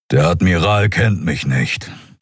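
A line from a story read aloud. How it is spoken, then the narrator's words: Grumbled. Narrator (German): brummte der Skria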